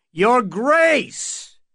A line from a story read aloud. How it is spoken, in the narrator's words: Dunk said again more loudly